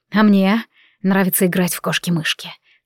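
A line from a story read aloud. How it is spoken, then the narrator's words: Soft whisper. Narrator (Russian): тихо прошептал он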